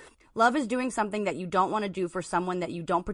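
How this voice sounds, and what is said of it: Usual voice. Nothing is said of it.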